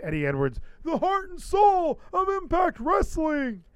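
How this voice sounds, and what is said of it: Josh Matthews announcer impression. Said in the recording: “my Josh Matthews impression”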